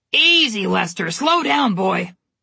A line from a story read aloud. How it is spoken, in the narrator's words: Mother Goose shouted in a raspy voice